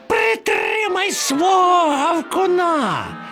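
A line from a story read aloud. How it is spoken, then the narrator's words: Shrill screeching. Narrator (Ukrainian): верещав Чмур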